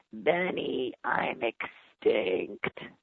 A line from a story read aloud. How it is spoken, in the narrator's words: complained in its croaky old voice